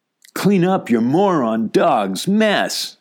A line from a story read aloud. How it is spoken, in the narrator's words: shouted one of the teens